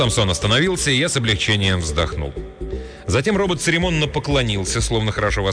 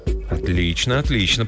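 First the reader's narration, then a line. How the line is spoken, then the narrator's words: Muttering. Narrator (Russian): пробормотал Джим Ланг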